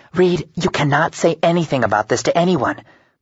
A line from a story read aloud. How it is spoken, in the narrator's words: Brooke hisses